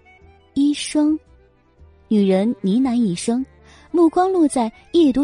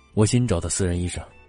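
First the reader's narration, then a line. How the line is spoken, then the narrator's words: Flat, indifferent. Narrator (Chinese): 荣寒生 淡淡的说道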